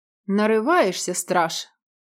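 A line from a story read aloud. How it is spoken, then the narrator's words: Mild, unmalicious threat. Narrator (Russian): пригрозил волк, но совсем не злобно, скорее для профилактики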